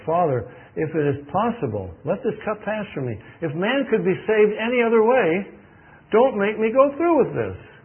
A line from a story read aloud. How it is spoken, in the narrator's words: He cried out to His Father